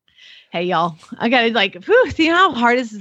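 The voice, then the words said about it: Put-on Southern US accent. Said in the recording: “I'm going to read it in the Southern accent ... Do your inner Debbie Southern Belle.”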